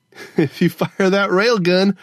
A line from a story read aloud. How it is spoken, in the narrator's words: Gogo Fernanda laughed